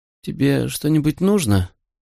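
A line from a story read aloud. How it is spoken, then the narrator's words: Sleepy question. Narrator (Russian): сонно спросила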